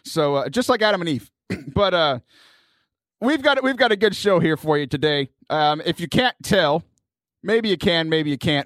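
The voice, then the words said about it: Worn, slightly hoarse voice. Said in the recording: “My voice is a little shot today... I'm a little tired”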